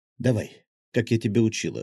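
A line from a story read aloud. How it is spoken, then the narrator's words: Whispered in the ear. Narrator (Russian): шепнула она на ухо гвардейцу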